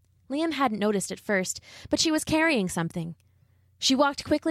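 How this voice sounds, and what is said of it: Usual voice. Nothing is said of it.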